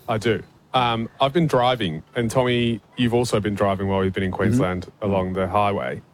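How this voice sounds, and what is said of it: English accent. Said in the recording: “hails originally from England. That's why his voice sounds a bit funny.”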